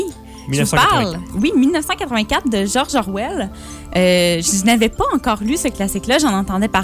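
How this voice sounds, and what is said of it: Usual voice. Nothing is said of it.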